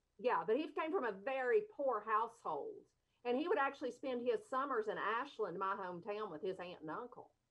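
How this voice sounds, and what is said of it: Eastern Kentucky accent. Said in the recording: “I love your accent... Eastern Kentucky”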